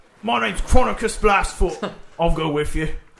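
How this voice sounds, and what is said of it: Put-on character voice with accent. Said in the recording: “do a voice for Chronicus ... this accent”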